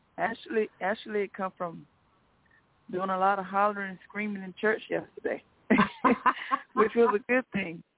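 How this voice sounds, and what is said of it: Hoarse, fading voice. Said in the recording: “I'm a little bit hoarse. I'm losing my voice.”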